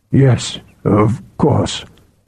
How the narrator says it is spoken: Aethor muttered

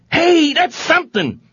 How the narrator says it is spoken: yelled Nicolo, completely won over

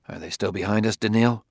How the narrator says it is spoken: asked Bailey in a whisper

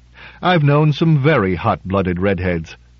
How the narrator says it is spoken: James Drake sighed reminiscently and said

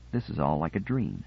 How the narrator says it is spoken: Binet said softly

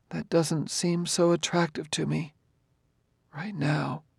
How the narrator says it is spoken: she said mournfully

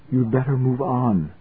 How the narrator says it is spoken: she said softly

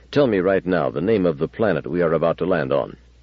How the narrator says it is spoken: Bailey said as sharply as he could manage

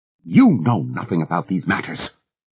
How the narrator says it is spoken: Goddess Woman told her furiously

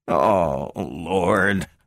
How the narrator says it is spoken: groaned the lesser half

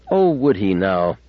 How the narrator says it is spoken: said bitterly

